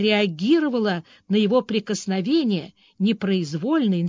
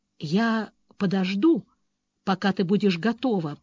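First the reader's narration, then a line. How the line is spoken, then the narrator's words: Male whisper. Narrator (Russian): прошептал он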